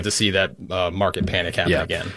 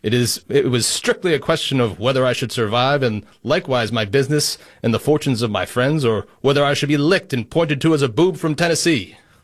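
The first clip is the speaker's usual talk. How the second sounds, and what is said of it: Put-on accent, dramatic reading. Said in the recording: “I like the accent. ... I had to go all into that.”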